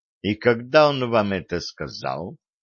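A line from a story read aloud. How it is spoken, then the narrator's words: Insinuating, silky question. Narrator (Russian): вкрадчиво спросил Виталик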